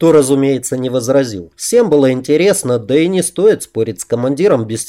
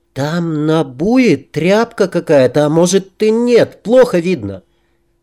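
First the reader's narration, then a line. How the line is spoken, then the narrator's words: Uncertain. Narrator (Russian): Дина неуверенно произнесла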